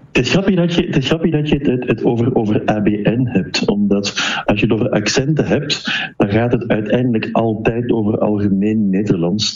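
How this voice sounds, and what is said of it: Flemish accent, soft G. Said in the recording (Dutch): “Het feit dat ik mijn klinkers een beetje anders uitspreek, het feit dat ik een zachte G heb, heeft mij meteen in de oren van alle luisteraars als een Vlaming geïdentificeerd.”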